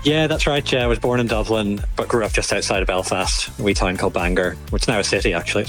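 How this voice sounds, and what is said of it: Irish accent. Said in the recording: “I'm detecting an Irish accent.”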